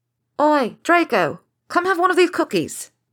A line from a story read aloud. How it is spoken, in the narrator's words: shouted the Weaselet